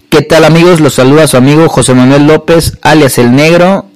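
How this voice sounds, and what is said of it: Radio announcer voice. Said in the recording (Spanish): “Con mi voz de locutor”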